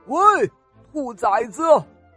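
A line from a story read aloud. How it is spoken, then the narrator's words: Angry roar. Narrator (Chinese): 大象怒吼了一声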